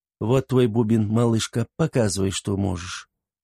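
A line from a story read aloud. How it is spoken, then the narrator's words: Gentle soft voice. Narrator (Russian): ласково и мягко произнесла она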